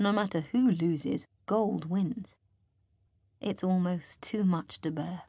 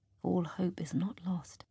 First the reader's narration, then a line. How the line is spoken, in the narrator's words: he whispers to me